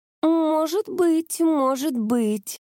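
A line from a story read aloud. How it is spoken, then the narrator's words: Drawn-out drawl. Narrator (Russian): протянула Бунка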